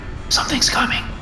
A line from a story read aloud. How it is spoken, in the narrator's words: Hatfield whispered